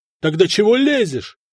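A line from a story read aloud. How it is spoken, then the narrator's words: Even louder shouting. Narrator (Russian): еще громче заорал Надир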